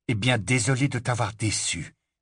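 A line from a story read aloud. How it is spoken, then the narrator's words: Very calm reply. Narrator (French): répondit Harry, d'un ton très calme, malgré le sentiment de vide, d'insuffisance qu'il éprouvait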